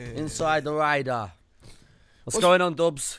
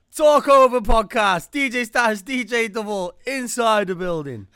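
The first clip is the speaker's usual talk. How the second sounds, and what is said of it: Impression of co-host's voice. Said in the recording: “I'll do a DJ Double impression.”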